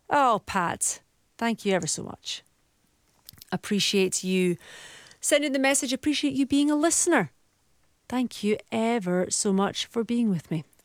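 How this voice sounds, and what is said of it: Scottish accent. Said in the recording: “I just love your beautiful Scottish accent.”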